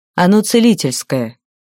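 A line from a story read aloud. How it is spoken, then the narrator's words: Dejected sigh. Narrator (Russian): огорченно вздохнул маг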